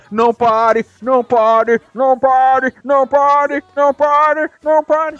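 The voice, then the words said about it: Imitates another person's voice. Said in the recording (Portuguese): “isso é ele, tá? Sou eu imitando o Fernandinho.”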